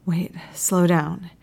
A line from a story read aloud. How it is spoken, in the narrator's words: gasps